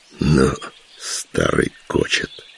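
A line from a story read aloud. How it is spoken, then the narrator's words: Admiring snort. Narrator (Russian): с восхищением хмыкнул вслед Кочеиму Калина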